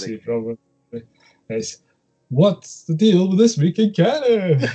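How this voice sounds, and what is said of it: Silly put-on funny voice. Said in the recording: “do it in a funny voice.”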